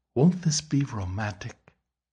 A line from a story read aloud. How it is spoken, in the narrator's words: breathed in his ear